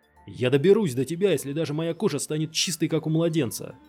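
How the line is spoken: Shouted. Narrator (Russian): закричал он

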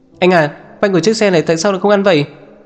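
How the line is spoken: Boy shouting. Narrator (Vietnamese): Cậu nhóc lái xe hét lên

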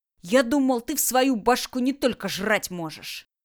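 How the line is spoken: Angry. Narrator (Russian): сердито ронял

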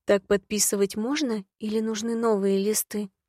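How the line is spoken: Gloomy question. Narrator (Russian): мрачно спросила

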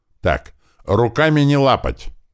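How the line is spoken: Barking at everyone. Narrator (Russian): рявкнул на всех Сели

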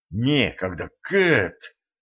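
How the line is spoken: Hissing. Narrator (Russian): прошипел Денис

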